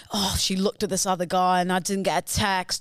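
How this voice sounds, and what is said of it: Generic Love Island contestant voice. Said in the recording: “your Love Island impression ... It's very generic. But it works.”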